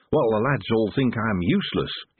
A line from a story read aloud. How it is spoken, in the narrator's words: he said cheerfully